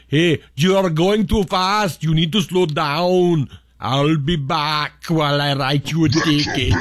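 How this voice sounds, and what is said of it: Bad Arnold Schwarzenegger impression. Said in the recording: “A bad Arnold Schwarzenegger impression. ... cheesy impressions”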